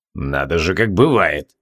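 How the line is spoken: Through gritted teeth. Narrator (Russian): процедил Асанта

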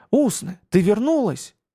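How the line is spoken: Joyful exclamation. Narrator (Russian): радостно воскликнул в темноте Маюни

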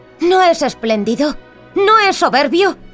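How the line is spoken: Hurried shout. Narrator (Spanish): gritó luego de un apresurado saludo

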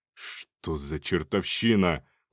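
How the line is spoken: Gruff grumble. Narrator (Russian): проворчал генерал

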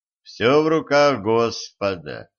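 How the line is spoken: Gloomy. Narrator (Russian): мрачно сказал Денис

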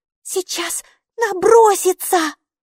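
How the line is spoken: Frightened squeak. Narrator (Russian): испуганно пискнула Алиса

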